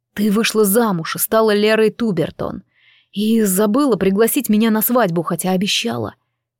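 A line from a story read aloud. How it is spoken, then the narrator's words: Quiet whisper. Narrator (Russian): тихо прошептал он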